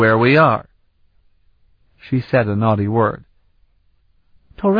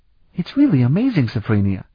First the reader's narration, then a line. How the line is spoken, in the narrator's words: Flute said happily